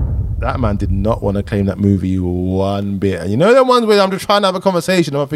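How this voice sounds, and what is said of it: Usual voice. Nothing is said of it.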